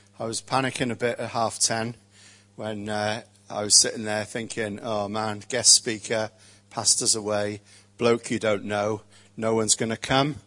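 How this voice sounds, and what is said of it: Welsh Rhondda accent. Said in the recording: “You can tell that I've got a really good Rhondda accent.”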